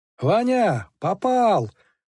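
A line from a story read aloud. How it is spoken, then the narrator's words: Joyful shout. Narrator (Russian): радостно крикнул Калюжный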